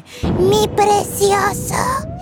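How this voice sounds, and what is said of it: Raspy Gollum impression. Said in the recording (Spanish): “hacer la voz de Gollum. Suenas como fumadora con resaca”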